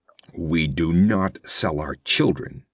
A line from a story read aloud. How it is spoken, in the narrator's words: he growled, his chin jutting truculently